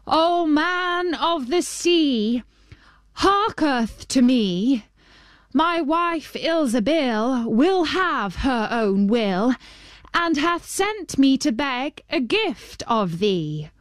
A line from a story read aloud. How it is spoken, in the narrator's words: he cried out